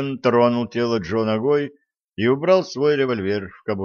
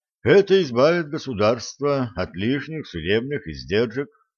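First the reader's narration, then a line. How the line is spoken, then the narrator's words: Plain. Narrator (Russian): сказал он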